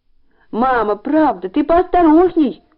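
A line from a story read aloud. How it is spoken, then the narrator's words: Shout. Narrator (Russian): крикнул он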